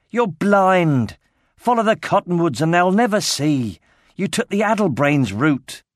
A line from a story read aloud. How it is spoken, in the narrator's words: Ridley shouted